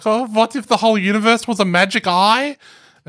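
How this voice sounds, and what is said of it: Bad German accent. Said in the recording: “that's a bad German accent.”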